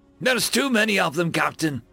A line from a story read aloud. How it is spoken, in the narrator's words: I called out to my superior